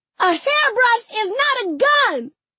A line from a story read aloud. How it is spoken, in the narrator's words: I scream loud as I can, tears in my eyes